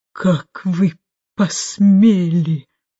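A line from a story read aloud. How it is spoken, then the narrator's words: Hoarse whisper. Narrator (Russian): произнесла она, наконец, хриплым шепотом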